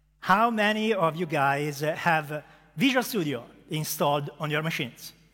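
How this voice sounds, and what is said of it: Strong Italian accent. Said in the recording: “a strong Italian accent ... As you can hear from my accent”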